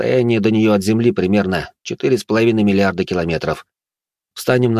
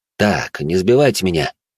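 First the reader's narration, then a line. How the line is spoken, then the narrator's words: Sighing explanation. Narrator (Russian): Алекс вздохнул и пояснил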